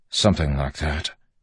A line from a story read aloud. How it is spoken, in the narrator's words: Wax mumbled